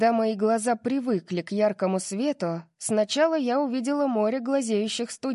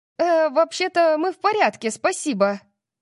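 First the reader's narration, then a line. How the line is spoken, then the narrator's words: Shouted. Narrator (Russian): крикнула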